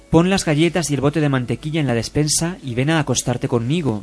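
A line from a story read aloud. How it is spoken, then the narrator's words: Plain. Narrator (Spanish): dijo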